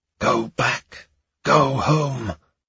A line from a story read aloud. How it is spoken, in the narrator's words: children whispering